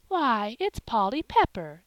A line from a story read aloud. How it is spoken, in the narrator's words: exclaimed Mrs